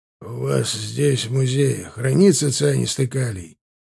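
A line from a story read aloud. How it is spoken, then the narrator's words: Hoarse policeman's question. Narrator (Russian): хрипло спросил полицейский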